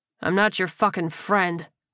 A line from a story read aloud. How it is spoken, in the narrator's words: Leon growled